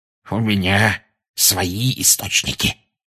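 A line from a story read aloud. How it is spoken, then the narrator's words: Smug hiss. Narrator (Russian): самодовольно прошипел Филч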